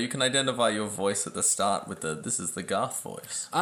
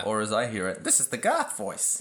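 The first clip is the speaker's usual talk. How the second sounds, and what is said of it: Weaselly, poofy imitation of another person. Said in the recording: “my flawless impression of you ... I just kind of sound kind of weaselly and, like, poofy”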